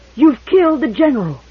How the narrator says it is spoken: With a wild, incoherent yell

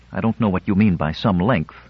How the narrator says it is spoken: she retorted angrily

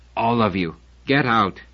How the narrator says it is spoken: Namati said huskily

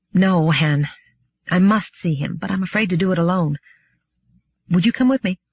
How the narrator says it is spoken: smiled wearily

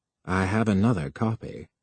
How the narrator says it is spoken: Finge said calmly

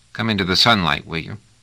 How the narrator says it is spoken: He muttered

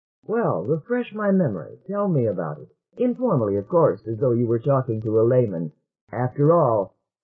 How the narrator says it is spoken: chuckled

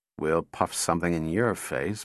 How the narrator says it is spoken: muttered Donovan

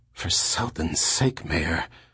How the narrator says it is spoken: Cadell whispered

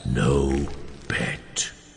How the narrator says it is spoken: whispered Lupov

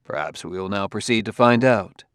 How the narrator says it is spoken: said Bailey coolly

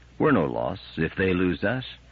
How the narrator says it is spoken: replied Powell gently

